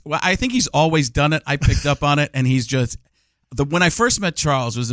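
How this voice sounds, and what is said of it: Usual voice. Nothing is said of it.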